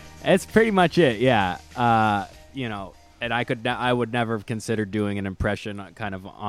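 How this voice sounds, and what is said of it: Usual voice. Nothing is said of it.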